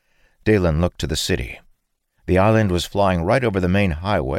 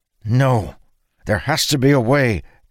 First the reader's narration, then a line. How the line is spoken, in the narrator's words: Dalen cried